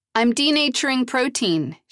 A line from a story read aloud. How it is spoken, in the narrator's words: she shouted